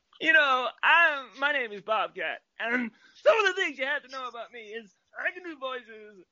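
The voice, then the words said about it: Near-shouted imitation of another person's voice. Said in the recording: “you want to hear an impression? You ever watch Police Academy films? ... The problem with Bobcat, right, is I have to almost shout it”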